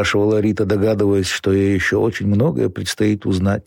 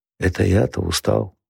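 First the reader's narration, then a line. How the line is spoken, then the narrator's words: Whispering. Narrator (Russian): шептал Володя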